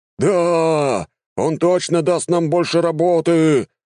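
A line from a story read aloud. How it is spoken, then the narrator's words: Crowd shouting back. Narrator (Russian): закричала в ответ толпа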